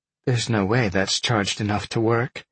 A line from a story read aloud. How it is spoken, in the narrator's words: Roberta sighed